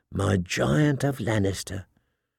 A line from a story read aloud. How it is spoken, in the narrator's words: she purred